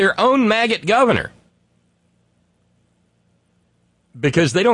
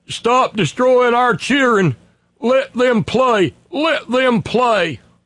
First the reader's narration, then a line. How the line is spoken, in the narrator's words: hooting and grunting